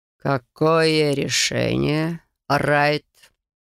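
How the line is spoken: Insinuating, older man. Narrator (Russian): вкрадчивым тоном спросил пожилой мужчина

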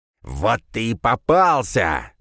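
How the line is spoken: Growling. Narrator (Russian): прорычал он

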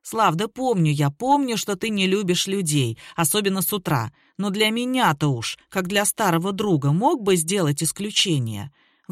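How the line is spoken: Grumbling. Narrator (Russian): ворчал Сергей

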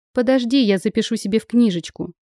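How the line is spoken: Plain. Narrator (Russian): сказала я

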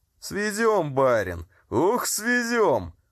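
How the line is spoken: Roaring coachman. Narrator (Russian): взревел извозчик

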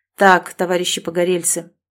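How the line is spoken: Firm decisive declaration. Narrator (Russian): решительно заявил твердым голосом

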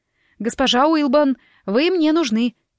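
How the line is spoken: Desperate shout. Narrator (Russian): прокричала почти в отчаянии

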